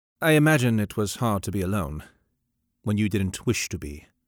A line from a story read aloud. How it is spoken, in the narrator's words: he said gently